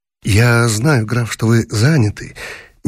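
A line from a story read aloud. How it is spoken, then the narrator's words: Soft voice. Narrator (Russian): мягким голосом сказал гость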